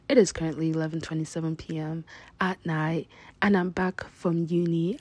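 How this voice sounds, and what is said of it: Low, quiet speaking voice. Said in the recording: “my voice is so low and so quiet ... I cannot just be yelling. I cannot just be talking loud”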